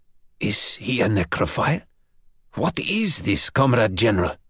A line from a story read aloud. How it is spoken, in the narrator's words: the left-hand man of the trio of watchers was moved to whisper